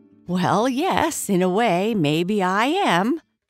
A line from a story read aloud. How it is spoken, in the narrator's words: laughed Slicko